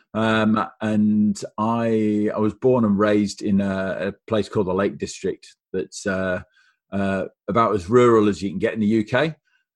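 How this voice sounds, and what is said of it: Northern English accent. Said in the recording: “you've got a bit of a familiar accent there ... I'm from Cumbria in the northwest of England”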